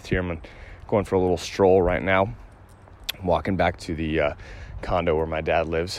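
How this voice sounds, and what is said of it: Slightly out of breath. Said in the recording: “a little out of breath”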